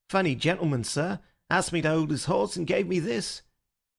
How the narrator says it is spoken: he added in an injured voice

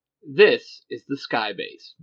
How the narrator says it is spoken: Matt says

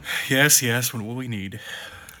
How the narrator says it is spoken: He mutters

